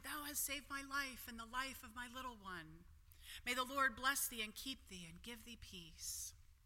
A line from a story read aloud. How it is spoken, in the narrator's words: the voice of the woman, weeping for joy, said softly